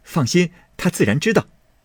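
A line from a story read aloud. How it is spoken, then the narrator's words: Laughing. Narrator (Chinese): 宝玉笑道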